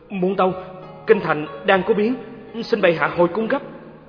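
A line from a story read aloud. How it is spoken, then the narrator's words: Panicked stammering guard. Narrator (Vietnamese): ngự lâm quân thản thốt, lắp bắp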